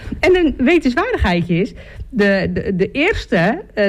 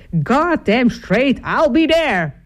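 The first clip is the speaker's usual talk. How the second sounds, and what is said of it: Put-on American Southern accent. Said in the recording (Dutch): “helemaal met Southern accent dan”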